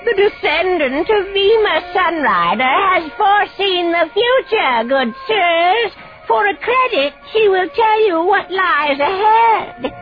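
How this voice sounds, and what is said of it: Shrill, squeaky voice, odd accent. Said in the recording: “The voice was shrill and squeaky, and he couldn't place the accent.”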